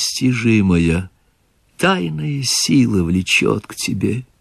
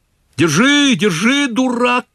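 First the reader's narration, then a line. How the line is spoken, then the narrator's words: Shouting. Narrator (Russian): кричал Чичиков Селифану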